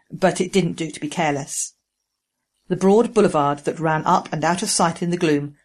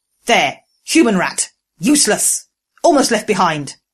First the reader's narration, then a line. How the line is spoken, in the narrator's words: The raid leader spat